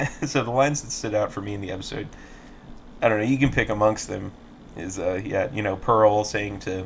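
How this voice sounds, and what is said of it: Usual voice. Nothing is said of it.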